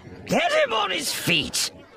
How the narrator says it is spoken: Pressick shouted

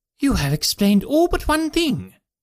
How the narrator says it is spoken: cried the Colonel

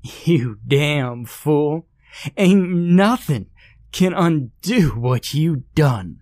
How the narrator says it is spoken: Hilda exclaimed between bouts of insane laughter

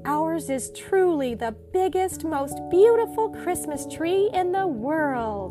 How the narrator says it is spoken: exclaimed little Nina and Nutley

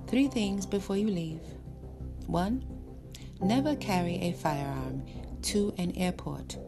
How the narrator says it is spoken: Sensei said evenly

